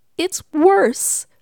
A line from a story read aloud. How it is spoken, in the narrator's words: cried Miss Sneecher